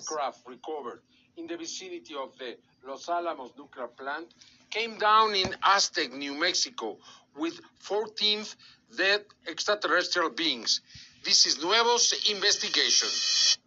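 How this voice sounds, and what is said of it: Strong, hard-to-understand accent. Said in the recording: “I love his accent. It's so strong. It's hard to hear. It's hard to understand”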